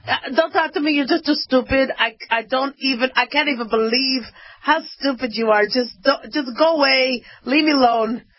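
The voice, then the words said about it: Imitated father's accented voice. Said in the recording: “He had this accent.”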